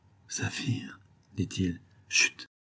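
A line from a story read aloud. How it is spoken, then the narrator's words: Hushed. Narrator (French): fit-elle tout bas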